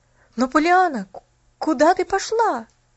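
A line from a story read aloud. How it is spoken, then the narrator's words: Exclaiming. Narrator (Russian): воскликнул Джимми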